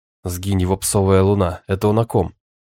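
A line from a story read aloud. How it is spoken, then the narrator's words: Offended inner growl. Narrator (Russian): Внутри меня Василий зарычал, оскорбленный до глубины души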